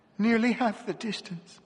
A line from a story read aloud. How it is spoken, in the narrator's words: she repeated in a lifeless voice